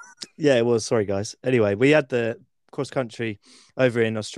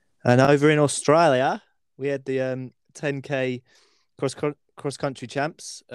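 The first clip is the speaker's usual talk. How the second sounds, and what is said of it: Put-on Australian accent. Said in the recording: “Have you been hiding that accent ... My Australian accent. It was pretty good, wasn't it?”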